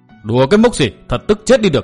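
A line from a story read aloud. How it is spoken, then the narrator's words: Furious loud shout. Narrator (Vietnamese): Đặng Thái Bình càng thêm tức đến cơ hồ mửa máu, giận dữ quát to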